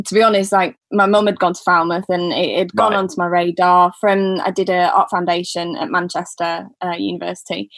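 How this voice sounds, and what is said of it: Northern English accent. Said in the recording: “I should have picked up the accent immediately ... I'm a bit northern, I think. I've had a lot of comments on that.”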